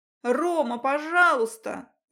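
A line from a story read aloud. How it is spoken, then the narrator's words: Shouting into ear. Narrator (Russian): закричала я ему в ухо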